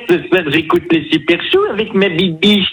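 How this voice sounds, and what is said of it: Cartoon character voice, Homer Simpson. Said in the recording (French): “Homer ... Bah, Homer Simpson. ... Homer, tu peux nous dire”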